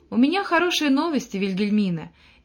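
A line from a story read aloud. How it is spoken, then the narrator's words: Cheerful. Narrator (Russian): весело произнес капитан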